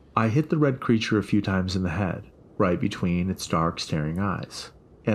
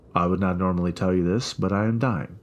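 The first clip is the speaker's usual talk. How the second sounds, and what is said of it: Thick Russian accent. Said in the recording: “he said in a thick accent. ... my home country of Russia”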